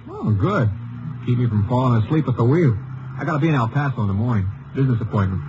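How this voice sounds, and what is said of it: New York accent. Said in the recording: “You from the east?... New York. Just the accent sticks out”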